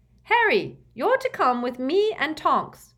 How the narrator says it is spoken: shouted Mrs

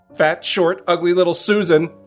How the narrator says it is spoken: she blurted out

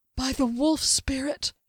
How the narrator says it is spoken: whispered

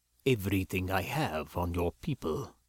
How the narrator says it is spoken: he stated gravely

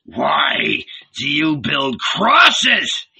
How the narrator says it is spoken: thundered violently

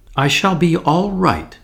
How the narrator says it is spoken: snapped Tuppence with her usual resentment of any kind of pity

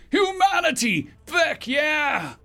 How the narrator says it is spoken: shouted

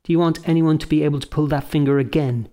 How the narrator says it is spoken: she asked

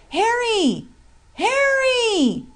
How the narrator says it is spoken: he shouted with his powerful voice

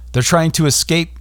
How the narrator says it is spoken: yelled one agent

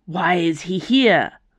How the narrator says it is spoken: Valeria snarled

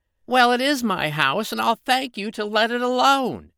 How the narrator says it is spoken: cried the fairy

